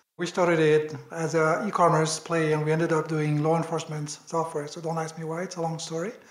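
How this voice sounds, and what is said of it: French accent. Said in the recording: “I'm French, as you might hear from my accent.”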